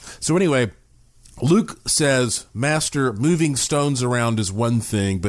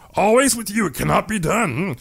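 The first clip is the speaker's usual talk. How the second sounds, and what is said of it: Yoda character voice. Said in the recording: “shouldn't do a Yoda voice”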